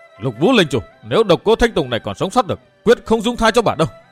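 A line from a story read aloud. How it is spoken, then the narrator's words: Loud shout. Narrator (Vietnamese): Chàng hét to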